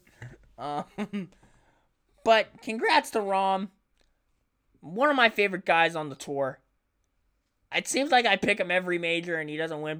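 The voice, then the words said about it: Cracking voice, sounds like a kid. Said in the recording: “my voice cracking, by the way? I sound like a little kid on Christmas morning”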